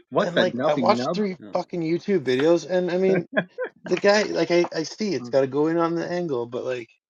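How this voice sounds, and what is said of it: French-accented English. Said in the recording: “Guys are mistaking my accent for like the wrong word ... I completely understand the French in your accent ... Little French boy”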